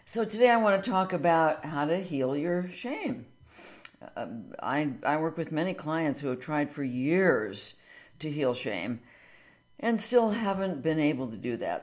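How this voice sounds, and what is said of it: Slightly hoarse voice. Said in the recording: “my voice gets a little hoarse today... we are just full of smoke. So it is having a bit of an effect on my voice.”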